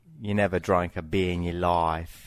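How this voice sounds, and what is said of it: Put-on Australian accent. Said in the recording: “how about Australian? ... I can't do Australian, except I can say this one thing ... That's not terrible.”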